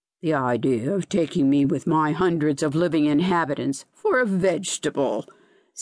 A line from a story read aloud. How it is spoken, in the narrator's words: sneered the zoophyte